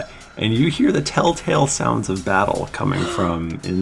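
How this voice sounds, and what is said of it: Usual voice. Nothing is said of it.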